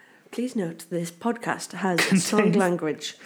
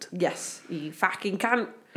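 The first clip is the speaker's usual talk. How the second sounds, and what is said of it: Put-on Cockney accent. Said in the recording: “I love saying it in a Cockney accent.”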